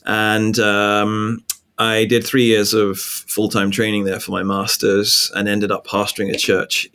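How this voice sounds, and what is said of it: English accent. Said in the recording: “my accent gives me away, right? I'm not originally from the US. I'm from England.”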